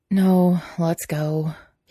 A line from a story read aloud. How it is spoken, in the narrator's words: he said, words taking the form of a long sigh